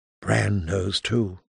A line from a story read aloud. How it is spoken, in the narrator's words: she whispered